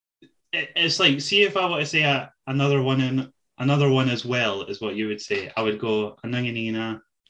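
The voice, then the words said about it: Fast speech with a noticeable accent. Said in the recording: “the speed in which you say it, and your accent”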